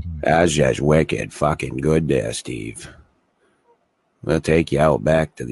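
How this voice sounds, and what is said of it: Exaggerated New England accent. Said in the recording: “I pour on my New England accent a little more than others ... No, I can pour it on.”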